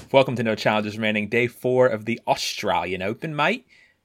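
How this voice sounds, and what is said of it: Put-on Australian accent. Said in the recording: “Courtney is currently grimacing at my accent ... On behalf of the Australian people, I grimaced at your accent.”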